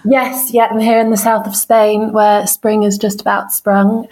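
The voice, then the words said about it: English accent. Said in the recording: “you have a lovely English accent”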